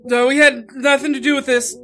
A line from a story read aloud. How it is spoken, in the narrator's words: Lincoln blurted out